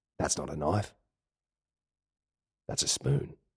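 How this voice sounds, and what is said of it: Macho outback Australian accent, Paul Hogan. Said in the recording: “popularized by figures such as Paul Hogan ... a couple of blokes out there in the outback that actually talk like this ... macho”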